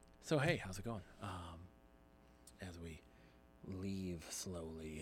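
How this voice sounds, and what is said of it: Usual voice. Nothing is said of it.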